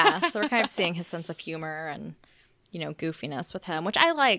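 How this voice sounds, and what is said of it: Usual voice. Nothing is said of it.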